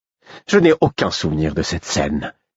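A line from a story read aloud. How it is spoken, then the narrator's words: Curt, cutting. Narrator (French): fit Royal d'un ton cassant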